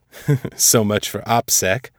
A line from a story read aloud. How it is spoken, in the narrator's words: Elias chuckled